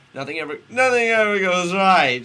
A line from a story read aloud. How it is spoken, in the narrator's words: she cried out